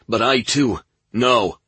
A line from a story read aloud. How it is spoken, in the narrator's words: Burke yelled, interrupting his friend